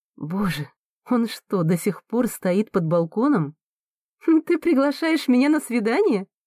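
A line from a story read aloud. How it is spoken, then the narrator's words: Laughing. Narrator (Russian): Смеясь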